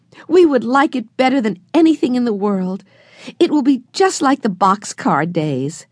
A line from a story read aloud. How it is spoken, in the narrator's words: cried Jessie